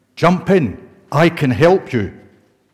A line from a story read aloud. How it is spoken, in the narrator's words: A man in a rowing boat came by and shouted